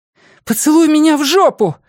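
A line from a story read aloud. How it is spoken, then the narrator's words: Straining breathless exhale. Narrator (Russian): выдохнула она, пытаясь вырвать вмонтированную вдоль коридора трубу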